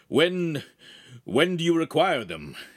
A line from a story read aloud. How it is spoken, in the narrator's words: He asked nervously